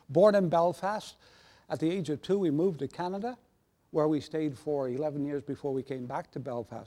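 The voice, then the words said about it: Mixed Northern Irish and Canadian accent. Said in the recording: “Where is that accent? ... people will pick up a dual accent with me”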